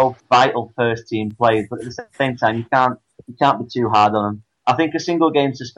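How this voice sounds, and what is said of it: Usual voice. Nothing is said of it.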